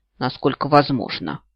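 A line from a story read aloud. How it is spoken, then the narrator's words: Grumbled. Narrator (Russian): пробурчала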